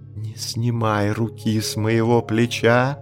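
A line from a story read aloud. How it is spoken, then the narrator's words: Whispered. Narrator (Russian): прошептала Багира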